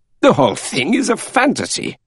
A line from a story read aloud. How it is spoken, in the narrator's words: cried Monsieur Bouc